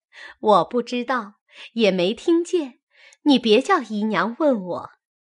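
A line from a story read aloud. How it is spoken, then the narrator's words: Laughing. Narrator (Chinese): 宝钗笑着说道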